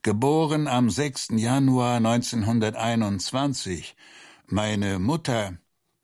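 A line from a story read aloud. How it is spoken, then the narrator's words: Groaning. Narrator (German): stöhnte er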